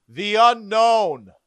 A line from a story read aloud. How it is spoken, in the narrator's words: Chief Deputy Coroner Dan Cupido yelled back